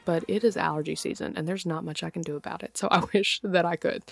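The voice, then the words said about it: Slightly nasal, congested voice. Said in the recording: “I know I sound a little nasally”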